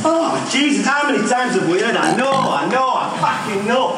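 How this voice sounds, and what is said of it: Exasperated, frustrated shouting. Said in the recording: “He's exasperated”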